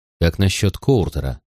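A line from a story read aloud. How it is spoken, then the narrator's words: Low-voiced question. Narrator (Russian): спросил я вполголоса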